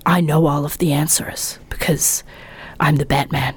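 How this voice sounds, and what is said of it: Very low whispered gravelly voice. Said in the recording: “It's all very, very low and whispered voices. ... Lots of men talking like this. ... That was a very good impression.”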